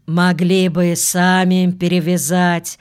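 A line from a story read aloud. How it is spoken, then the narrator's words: Displeased grumbling. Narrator (Russian): Недовольно проворчал служитель эскулапа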